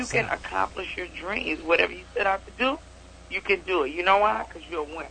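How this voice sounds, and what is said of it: Slight Southern-sounding accent. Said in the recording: “She got an accent ... you got a little accent to you. It don't sound more East Coast. It sounds southern a little ... I almost sound kind of like Brooklyn”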